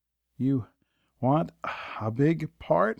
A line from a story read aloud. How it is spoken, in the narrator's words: grunted